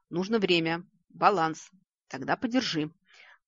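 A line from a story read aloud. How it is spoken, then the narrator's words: Snorting. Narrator (Russian): Фыркнул Вик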